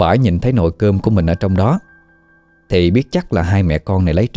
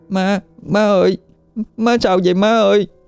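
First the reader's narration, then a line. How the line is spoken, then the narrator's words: Crying. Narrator (Vietnamese): Nó khóc lóc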